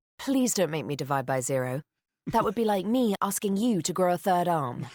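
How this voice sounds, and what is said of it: Condescending British-accented assistant voice. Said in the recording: “condescending Siri ... Siri with a British accent”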